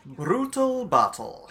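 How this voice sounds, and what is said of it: Put-on Scottish-type accent. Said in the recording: “Oh, is that a Scottish type accent?”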